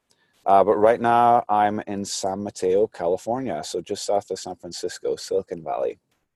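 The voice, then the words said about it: Fading Scottish accent. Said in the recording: “I'm originally from Glasgow, Scotland. Starting to lose my accent a little bit.”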